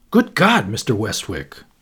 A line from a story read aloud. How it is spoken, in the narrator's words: he exclaimed